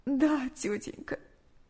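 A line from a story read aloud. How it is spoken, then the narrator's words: Tearful reply. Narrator (Russian): сквозь слезы ответила Наташа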